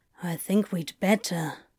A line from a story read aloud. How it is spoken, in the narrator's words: Crowley mumbled